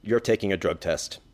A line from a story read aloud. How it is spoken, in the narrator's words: he says calmly